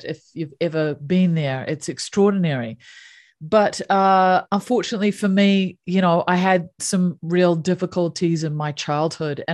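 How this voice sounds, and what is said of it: New Zealand accent. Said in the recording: “You can probably tell from my accent that I grew up in the South Pacific. So I grew up in New Zealand”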